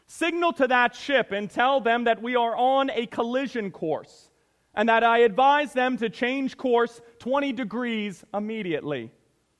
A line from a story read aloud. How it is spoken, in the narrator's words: the captain yelled to the signalman